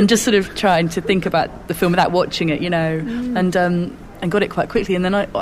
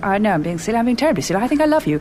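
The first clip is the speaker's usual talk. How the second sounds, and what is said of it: Celia Johnson impression. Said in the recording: “a Celia Johnson type impression”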